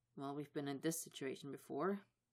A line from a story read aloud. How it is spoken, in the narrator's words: Nate mutters